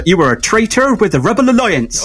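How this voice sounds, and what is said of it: Put-on West Country English accent. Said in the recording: “the West Country accent ... he was also from the West Country. So he had an accent. And it was the kind of constant joke that if he was reading his lines during the film, how funny that must have been”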